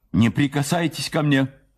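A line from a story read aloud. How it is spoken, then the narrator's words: Shout. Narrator (Russian): крикнула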